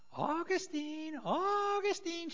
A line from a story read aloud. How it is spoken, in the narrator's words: she cried out